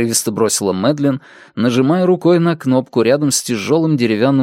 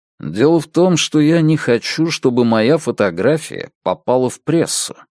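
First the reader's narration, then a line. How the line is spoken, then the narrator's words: Calm. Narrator (Russian): спокойно сказал Страйк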